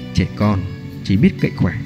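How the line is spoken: Cold inner mutter. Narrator (Vietnamese): lạnh lùng, trong lòng lẩm bẩm

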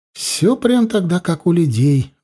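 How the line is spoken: Breathed out. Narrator (Russian): выдохнула Зейла

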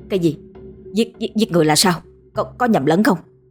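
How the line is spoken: Stammering, broken words. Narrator (Vietnamese): Mình lắp bắp nói không thành câu

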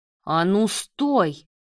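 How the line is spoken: Barked. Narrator (Russian): Рявкнул Давид

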